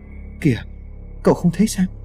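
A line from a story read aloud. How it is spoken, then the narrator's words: Frightened, trembling voice. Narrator (Vietnamese): Tài xế vẫn còn tỏ ra sợ hãi, run giọng nói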